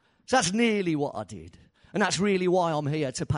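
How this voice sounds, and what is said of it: Usual voice. Nothing is said of it.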